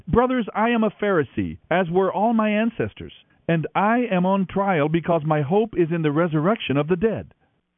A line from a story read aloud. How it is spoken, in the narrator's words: Paul shouted